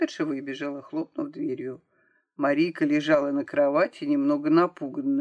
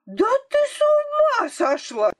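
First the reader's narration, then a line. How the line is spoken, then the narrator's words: Doctor's wife shouting. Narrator (Russian): закричала докторша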